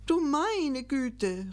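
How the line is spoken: Exclaimed. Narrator (German): rief Gickelgei

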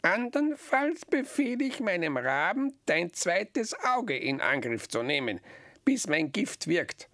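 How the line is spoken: Croaking witch. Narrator (German): krächzte die Hexe

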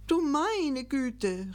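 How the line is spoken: Exclaiming. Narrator (German): rief Gickelgei

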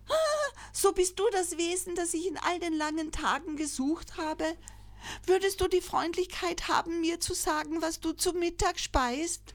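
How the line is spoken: Joyful call. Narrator (German): rief freudig

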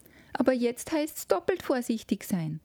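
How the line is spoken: Call from a corner. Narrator (German): rief's aus einem Winkel

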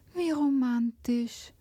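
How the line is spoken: Sighing. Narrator (German): seufzte Hanna

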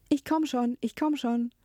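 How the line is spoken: Repeated calling. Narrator (German): immerzu rief

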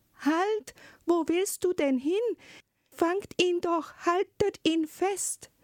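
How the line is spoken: Sudden call. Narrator (German): rief plötzlich die Zarin

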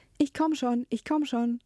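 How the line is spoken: Repeated calling while hurrying. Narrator (German): forteilte und dabei immerzu rief

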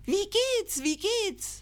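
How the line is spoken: Called out. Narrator (German): es rollte seinen Rüssel ganz dicht zusammen und rief

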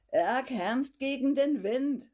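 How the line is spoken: Said, laughing. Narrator (German): sagte Fridolin und lachte

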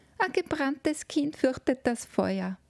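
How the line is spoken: Call from another room. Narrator (German): rief eine Stimme aus dem Spielzimmer

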